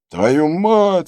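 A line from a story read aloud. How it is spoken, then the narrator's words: Yelling. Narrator (Russian): орал датчанин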